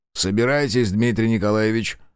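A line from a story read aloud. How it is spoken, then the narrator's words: Dry command. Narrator (Russian): сухо велел сыщик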